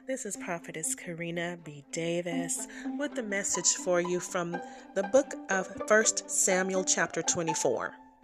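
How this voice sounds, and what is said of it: Voice sounds a little sick. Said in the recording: “I'm a little under the weather. I don't know if you can hear that in my voice”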